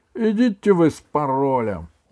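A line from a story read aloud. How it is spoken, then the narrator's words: Glum, dejected. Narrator (Russian): уныло сказал Володя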